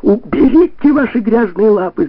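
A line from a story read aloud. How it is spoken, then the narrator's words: Shouting. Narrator (Russian): закричала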